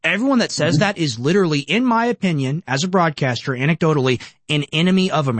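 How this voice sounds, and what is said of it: Usual voice. Nothing is said of it.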